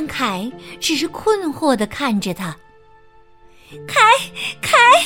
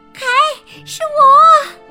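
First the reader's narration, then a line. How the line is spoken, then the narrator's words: Shouting. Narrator (Chinese): 戈尔达喊道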